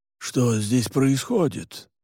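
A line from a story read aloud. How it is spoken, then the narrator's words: Muttered. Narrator (Russian): пробормотал он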